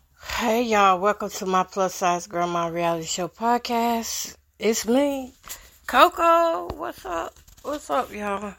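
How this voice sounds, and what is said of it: Tired-sounding voice. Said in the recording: “I sound tired, right? I am tired.”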